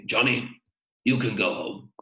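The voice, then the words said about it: Imitates another person's voice. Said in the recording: “I like your accent. That's a good impression. ... What an impression.”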